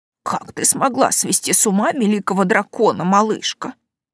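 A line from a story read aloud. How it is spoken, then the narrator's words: Wondering mutter. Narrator (Russian): пробормотала тетушка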